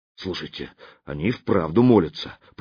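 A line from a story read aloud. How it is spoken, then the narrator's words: Whisper. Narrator (Russian): прошептал он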